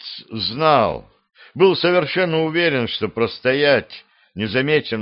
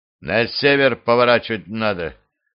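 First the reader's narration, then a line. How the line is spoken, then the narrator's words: Spiteful, spat words. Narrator (Russian): злобно сплюнул Тирц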